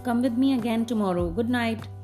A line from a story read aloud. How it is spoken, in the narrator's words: Peter called out after her